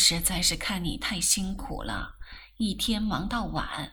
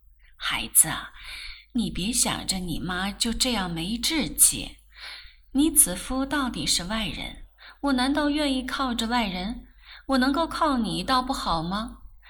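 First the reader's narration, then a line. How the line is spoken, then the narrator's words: Sighing. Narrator (Chinese): 顾太太叹了口气道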